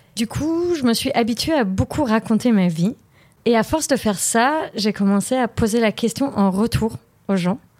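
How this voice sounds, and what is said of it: Slight foreign accent. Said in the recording (French): “j'ai un petit accent”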